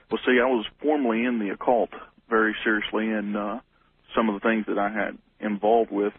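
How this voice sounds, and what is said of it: Bible Belt regional American accent. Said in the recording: “judging from your accent, you're somewhere in the Bible Belt”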